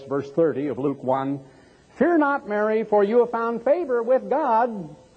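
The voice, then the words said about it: Little high child's voice. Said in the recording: “pipe in a little high voice”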